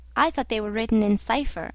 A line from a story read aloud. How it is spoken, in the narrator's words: I said